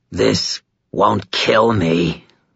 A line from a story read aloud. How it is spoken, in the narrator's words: the creature snarled